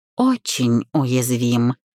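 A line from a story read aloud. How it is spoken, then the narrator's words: Sighing. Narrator (Russian): Она вздохнула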